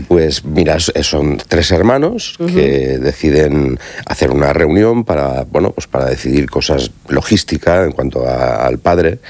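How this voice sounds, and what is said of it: Radio announcer's voice. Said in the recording (Spanish): “tiene una voz de locutor. ¿A que tiene voz de locutor? ... Sí, totalmente. ... Uno se queda embelesado.”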